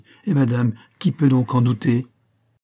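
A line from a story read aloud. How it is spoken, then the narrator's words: Young woman exclaiming. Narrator (French): s'écria la jeune fille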